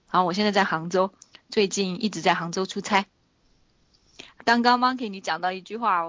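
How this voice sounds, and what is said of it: Taiwanese-accented Mandarin. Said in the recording (Chinese): “好喜欢台湾口音哦。... 台湾口音很好”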